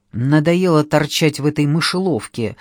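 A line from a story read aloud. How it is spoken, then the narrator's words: Irritated speech. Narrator (Russian): раздраженно проговорил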